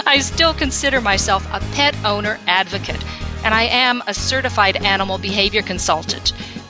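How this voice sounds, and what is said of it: North Texas Southern accent. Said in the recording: “Today I live in North Texas. I, can you tell from my accent?”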